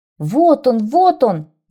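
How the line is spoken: Son shouting. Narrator (Russian): закричал сын

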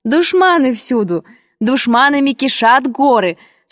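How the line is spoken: Laughing exclamation. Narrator (Russian): со смехом воскликнула Белла

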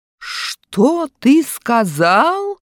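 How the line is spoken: Menacing shout. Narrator (Russian): грозно кричит учитель

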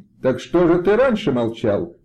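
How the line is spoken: Shouted in chorus. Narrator (Russian): закричали все хором

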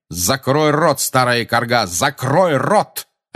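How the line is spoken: Barking. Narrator (Russian): рявкнул он

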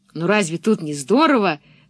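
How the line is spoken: Exclaimed. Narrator (Russian): воскликнул Томми

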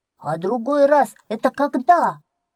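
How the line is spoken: Duckling calling after someone. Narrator (Russian): крикнул вслед мышонку утенок

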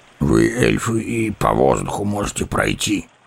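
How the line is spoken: Grumbling dwarf. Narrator (Russian): проворчал гном

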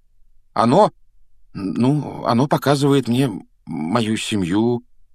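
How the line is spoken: Hesitant. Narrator (Russian): неуверенно начал Гарри

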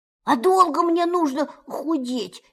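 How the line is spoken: Frightened question. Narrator (Russian): испуганно спросил Пух

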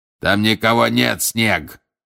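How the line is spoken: Shouted. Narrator (Russian): крикнул Грюм

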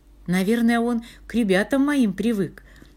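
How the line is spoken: Laughing. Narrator (Russian): засмеялась воспитательница

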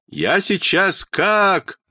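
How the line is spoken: Loud crying. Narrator (Russian): Тома громко заплакала

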